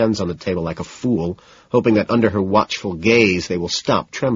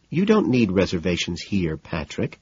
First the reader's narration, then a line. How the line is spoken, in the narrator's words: she says soothingly